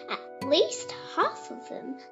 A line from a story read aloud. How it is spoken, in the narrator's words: laughed his dad